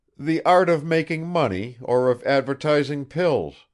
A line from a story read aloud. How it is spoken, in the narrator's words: cried Bazarov with a contemptuous laugh